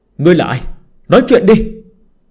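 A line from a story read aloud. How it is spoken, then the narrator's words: Shouting angrily. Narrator (Vietnamese): Người bảo tiêu kia quát lên lần nữa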